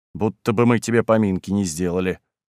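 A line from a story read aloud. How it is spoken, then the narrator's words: Grumbling. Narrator (Russian): буркнул Василий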